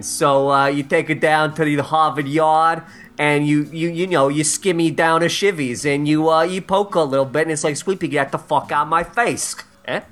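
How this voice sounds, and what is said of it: Put-on Boston accent. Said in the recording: “Pretty good Boston ... terrible”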